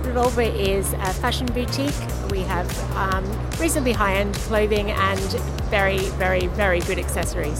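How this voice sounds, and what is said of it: Australian accent. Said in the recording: “That's clearly an Australian accent.”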